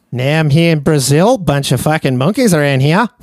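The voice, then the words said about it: Put-on Australian accent. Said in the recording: “he's from Australia ... he has a pretty cool accent”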